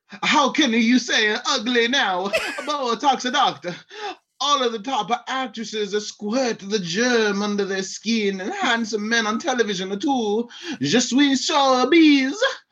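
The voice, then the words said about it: Put-on accent. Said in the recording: “You have to do the accent. Doctor. You have to do the accent.”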